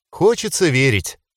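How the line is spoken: Sad smile. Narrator (Russian): грустно улыбнулась Дита

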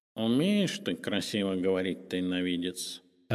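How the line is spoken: Approving purr. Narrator (Russian): одобрительно мурлыкнул Уголек

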